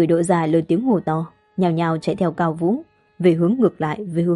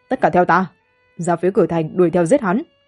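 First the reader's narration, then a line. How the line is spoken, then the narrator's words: Cold harsh shout. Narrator (Vietnamese): Cao Vũ nét mặt âm hàn, lạnh lùng ném ra một câu, không chút khách khí quát người Đỗ gia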